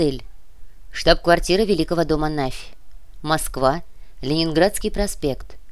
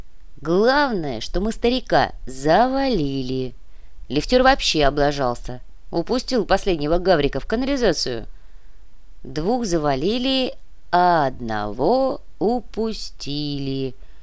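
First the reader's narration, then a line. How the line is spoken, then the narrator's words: Drawn out. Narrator (Russian): протянул водитель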